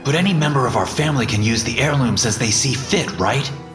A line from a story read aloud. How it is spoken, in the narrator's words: insisted angrily